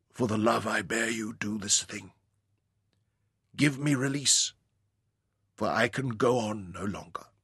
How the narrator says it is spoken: she whispered

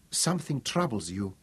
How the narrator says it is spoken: whispered

